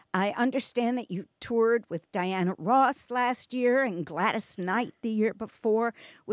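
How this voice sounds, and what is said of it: New York accent. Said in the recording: “I thought I was hearing a New York accent.”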